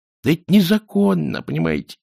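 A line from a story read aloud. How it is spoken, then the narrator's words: Dejected voice. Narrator (Russian): упавшим голосом объяснил Кувыркс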